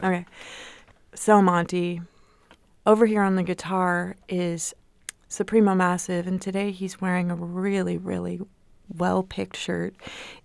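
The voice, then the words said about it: Public radio announcer voice. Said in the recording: “going to put on my radio voice. ... Try to do it like an NPR person.”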